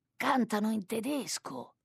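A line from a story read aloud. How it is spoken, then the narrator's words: Murmuring cook. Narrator (Italian): mormora il cuoco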